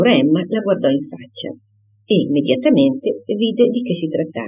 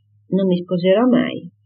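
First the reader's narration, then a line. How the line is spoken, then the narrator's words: Very serious tone. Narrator (Italian): Harriet dire in tono serio serio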